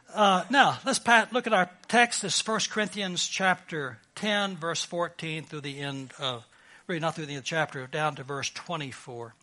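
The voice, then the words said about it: Texas accent. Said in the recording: “my Texas accent. I speak perfect Texan”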